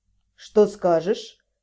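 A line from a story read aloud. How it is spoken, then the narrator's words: Quiet question. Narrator (Russian): негромко спросил Вашарий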